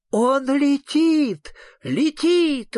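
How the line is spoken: Exclaimed. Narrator (Russian): воскликнул супротивка

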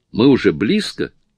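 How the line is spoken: Excited exclamation. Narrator (Russian): Анни возбужденно воскликнула

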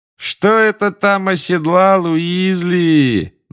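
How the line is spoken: Mocking sing-song. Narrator (Russian): насмешливо пропел Малфой

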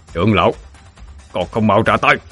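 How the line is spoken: Harsh gritted voice. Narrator (Vietnamese): Lôi Vũ gằn giọng

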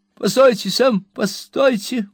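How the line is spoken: Trembling exclamation. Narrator (Russian): воскликнул мистер Уинкль, сильно дрожа

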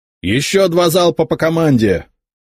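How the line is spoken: Loud shout. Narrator (Russian): Громко крикнул капитан

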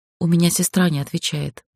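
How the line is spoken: Quiet. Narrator (Russian): тихо сообщила я

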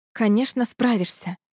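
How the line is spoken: Tender, gentle. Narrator (Russian): ласково ответила женщина

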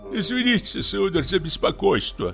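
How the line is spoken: Pleading voice. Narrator (Russian): начал настройщик умоляющим голосом

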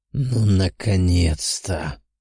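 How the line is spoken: Hoarse demonic voice. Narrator (Russian): послышался хриплый голос демона

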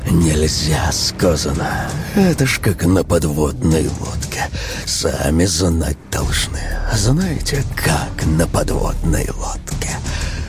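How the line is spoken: Coaxing whisper. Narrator (Russian): этот увещевающий шепот

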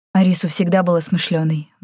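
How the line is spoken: Sighed. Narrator (Russian): вздохнул Исмаэль

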